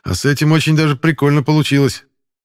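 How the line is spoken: Amused snort. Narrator (Russian): хмыкнул Пашка

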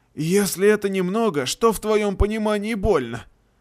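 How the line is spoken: Wheezing voice. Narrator (Russian): хрипящий голос тотема

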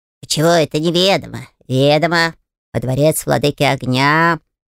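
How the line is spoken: Snort. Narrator (Russian): хмыкнул Файер

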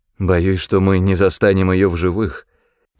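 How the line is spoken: Sad reply. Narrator (Russian): печально ответил Артур

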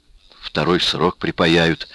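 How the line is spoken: Sighing. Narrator (Russian): вздохнул Дырсин

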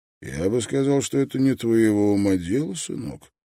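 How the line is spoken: Gentle reply. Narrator (Russian): мягко ответил Строн

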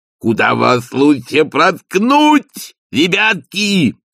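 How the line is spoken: Ecstatic yelling. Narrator (Russian): восторженно завопил он

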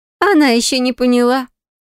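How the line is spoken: Knowing snort. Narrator (Russian): хмыкнула Диарелла

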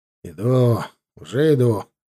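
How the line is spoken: Grumbling. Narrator (Russian): проворчал я

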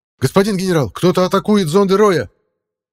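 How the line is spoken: Operator shouting. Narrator (Russian): выкрикнул оператор систем сканирования

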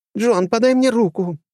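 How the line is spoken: Moaning from below. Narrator (Russian): простонала Алисия снизу

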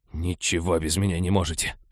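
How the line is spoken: Grumble. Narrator (Russian): проворчал он

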